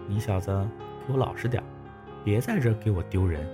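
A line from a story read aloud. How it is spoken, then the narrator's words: Hurried, low. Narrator (Chinese): 夏晴急忙……低声说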